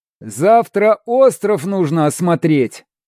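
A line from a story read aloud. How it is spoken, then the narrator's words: Loud, for everyone. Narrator (Russian): громко, чтобы услышали все, сказал Шмель со своего места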